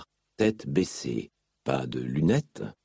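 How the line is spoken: Murmured. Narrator (French): murmura Dalinar

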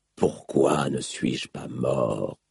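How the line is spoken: Whispered. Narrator (French): chuchota-t-il

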